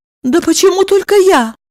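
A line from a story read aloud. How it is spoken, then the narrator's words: Exclaimed. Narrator (Russian): воскликнула Евдокия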